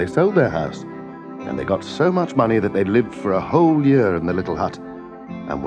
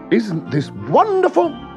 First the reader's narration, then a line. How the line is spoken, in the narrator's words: cried the woman